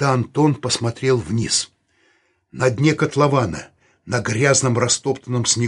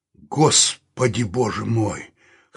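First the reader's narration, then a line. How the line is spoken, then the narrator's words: Hoarse exclamation. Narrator (Russian): хрипло воскликнул Саул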